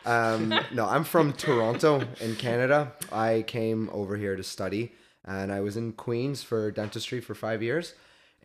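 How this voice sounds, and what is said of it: Accent different from the host's. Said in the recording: “your accent is not the same as mine. You say "char" very differently than I do ... accent's really different”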